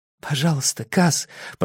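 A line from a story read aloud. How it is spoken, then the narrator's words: Whisper. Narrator (Russian): прошептал Инеш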